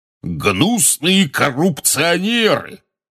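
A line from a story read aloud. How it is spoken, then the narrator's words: Roaring. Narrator (Russian): взревел портрет дородного красноносого волшебника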